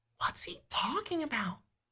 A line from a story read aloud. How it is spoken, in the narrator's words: Julie whispers to you